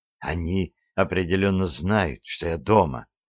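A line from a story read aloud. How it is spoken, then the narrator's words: Whisper. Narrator (Russian): прошептала Селия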